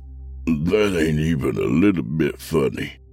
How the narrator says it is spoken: Yancey groaned

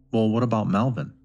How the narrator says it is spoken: her brother asked

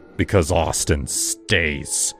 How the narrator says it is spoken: I snarled

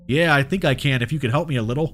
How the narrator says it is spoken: he said, his voice tense and betraying his pain

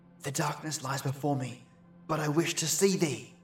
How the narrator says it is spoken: you must whisper

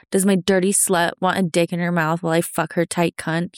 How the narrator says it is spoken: He growls

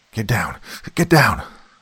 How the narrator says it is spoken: I yelled at Lampa and Deline

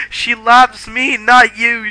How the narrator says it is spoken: shouted Vampire

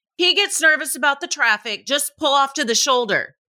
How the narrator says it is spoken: His passenger yelled to me

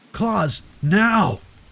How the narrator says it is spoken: I shouted as the creature came at us

